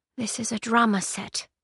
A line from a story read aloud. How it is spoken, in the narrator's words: whispered, quietly enough that they couldn't hear her